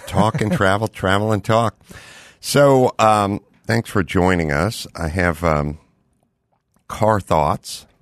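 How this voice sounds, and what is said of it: Worn, slightly rough voice. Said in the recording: “my voice is a little wanky. I've been traveling and talking and talking and traveling.”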